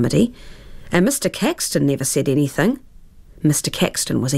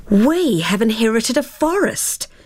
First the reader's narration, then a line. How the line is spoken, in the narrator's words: cried Tara, copying her father's astonished cry of a fortnight earlier